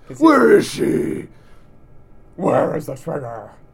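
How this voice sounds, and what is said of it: Batman character voice impression. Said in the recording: “I do a really good Batman impression. ... That's probably a better Batman than Christian Bale, actually doing the Batman voice.”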